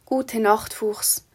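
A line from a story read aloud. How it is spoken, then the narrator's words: Whispered in chorus. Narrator (German): flüsterten die drei im Chor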